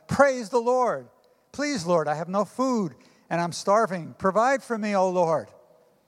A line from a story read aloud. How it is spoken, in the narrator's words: the little old lady stepped out onto her front porch and shouted